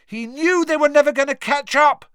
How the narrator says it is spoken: Harry shouted back over all the noise

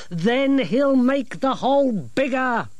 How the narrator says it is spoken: snapped Grimmer

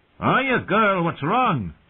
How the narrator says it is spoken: called out

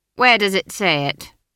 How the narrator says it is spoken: said Granny triumphantly

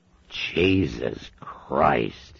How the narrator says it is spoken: moaned

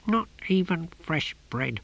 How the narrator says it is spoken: muttered Om, nose deep in his saucer

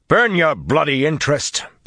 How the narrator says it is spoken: Perrin shouted

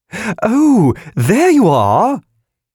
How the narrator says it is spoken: The balloon piped

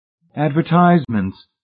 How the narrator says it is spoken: Miss Rice cried

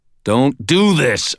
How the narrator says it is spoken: growled

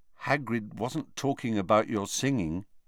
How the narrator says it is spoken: said Harry quietly

